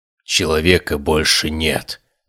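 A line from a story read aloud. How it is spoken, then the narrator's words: Pained mutter, giant. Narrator (Russian): пробормотал гигант, с болью в глазах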